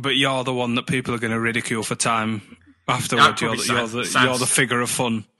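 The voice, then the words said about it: Scottish accent. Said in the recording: “You're the Andy Gray. ... Why am I Andy Gray? Because I've got the accent.”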